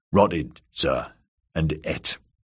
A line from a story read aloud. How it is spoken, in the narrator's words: Shitmouth lowered his eyes and muttered